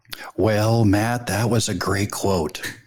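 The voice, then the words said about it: Poor imitation of another person's voice. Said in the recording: “my terrible Ronald Reagan impression”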